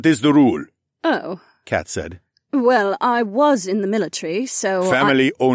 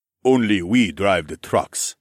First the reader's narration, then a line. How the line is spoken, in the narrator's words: Min Joon said firmly